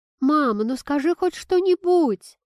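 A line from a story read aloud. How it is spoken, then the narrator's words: Pleading. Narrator (Russian): взмолилась Кира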